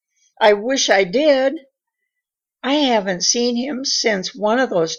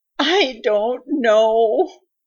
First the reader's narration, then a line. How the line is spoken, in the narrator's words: sobbed Mrs